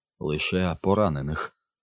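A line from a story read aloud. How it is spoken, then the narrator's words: Strange voice. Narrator (Ukrainian): мовив він дивним голосом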